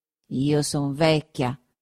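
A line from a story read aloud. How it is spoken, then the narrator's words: Muttered through teeth. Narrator (Italian): continuò mormorando tra i denti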